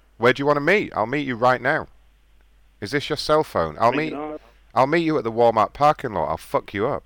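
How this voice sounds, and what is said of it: Fake put-on voice. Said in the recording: “Sounds like a fake voice... Change your voice. It's fake.”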